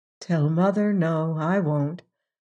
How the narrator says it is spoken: Margaret said with a long sigh

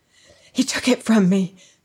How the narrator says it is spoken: she panted

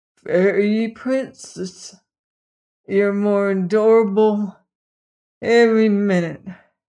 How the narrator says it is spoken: he said thickly

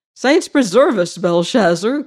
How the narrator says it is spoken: cried the harvester

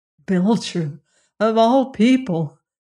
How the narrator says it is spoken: Bob groaned

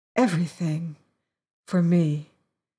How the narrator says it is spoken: she said softly

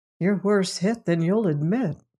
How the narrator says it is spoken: Merkel said gently

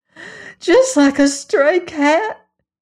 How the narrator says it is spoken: gasped Brindlebury's sister

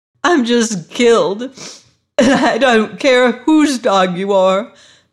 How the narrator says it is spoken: sobbed the girl

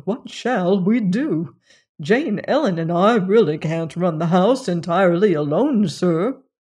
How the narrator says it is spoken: exclaimed Smithfield

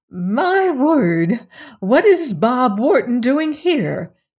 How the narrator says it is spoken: exclaimed the widow

